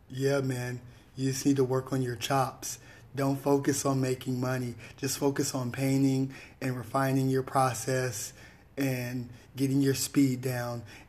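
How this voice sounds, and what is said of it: Imitates another person's voice. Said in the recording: “let me get my Nigel impression.”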